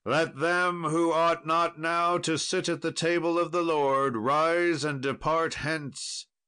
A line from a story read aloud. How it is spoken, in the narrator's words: a voice cried in the midst of the chamber